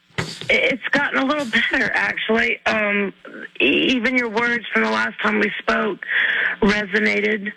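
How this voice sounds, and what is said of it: Rough voice, sounds unwell. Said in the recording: “my voice is a little messed up. I've been a little under the weather”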